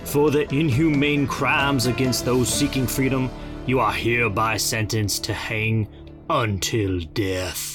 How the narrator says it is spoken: the judge's voice boomed

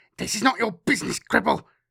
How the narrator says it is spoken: Hot breath rasped into his ear, and a voice, scratchy and cold, said

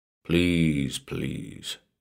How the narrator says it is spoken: said softly

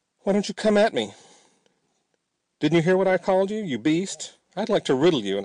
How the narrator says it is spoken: I shouted

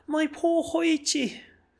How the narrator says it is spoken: cried the startled priest

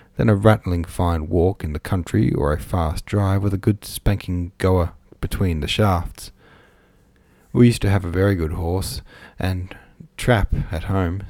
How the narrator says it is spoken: said Aunt Julia sadly

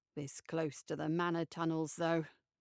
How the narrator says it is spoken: he mutters

